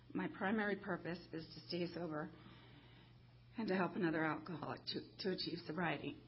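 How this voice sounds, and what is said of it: Damaged voice that goes in and out. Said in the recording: “it sounds bad tonight... My voice sounds like this because I'm a survivor of throat cancer 2 years ago... it kind of goes in and out”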